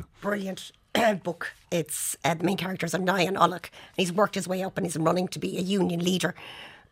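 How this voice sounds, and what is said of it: Hoarse, failing voice. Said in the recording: “my voice is gone”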